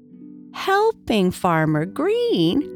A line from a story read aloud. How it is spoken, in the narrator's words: she exclaimed